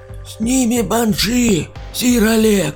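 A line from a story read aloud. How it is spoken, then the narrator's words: Old man shouting from above. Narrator (Russian): крикнул плюгавый с неопрятной бородой старик сверху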